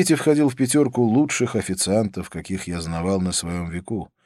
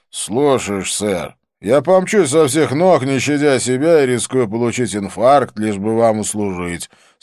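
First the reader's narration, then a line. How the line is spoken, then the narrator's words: Sarcastic mutter. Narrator (Russian): саркастически пробурчал Свити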